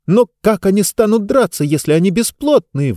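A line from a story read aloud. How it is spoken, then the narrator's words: Exclaimed. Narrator (Russian): воскликнула Диба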